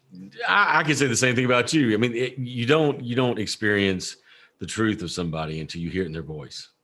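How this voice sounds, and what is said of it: Noticeable accent, good radio voice. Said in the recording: “it's so nice to hear your accent ... You have a great voice for radio and a great voice for reading.”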